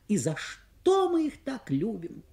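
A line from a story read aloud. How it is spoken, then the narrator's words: Young woman exclaiming. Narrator (Russian): воскликнула молодая женщина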